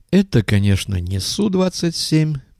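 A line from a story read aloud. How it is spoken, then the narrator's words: Purring pilot. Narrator (Russian): промурлыкал пилот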